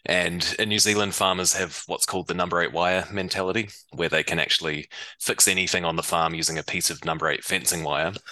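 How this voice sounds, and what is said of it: New Zealand accent. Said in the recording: “I grew up in New Zealand. You might be able to tell from my accent.”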